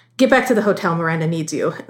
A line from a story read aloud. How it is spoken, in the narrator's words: Nigel said quickly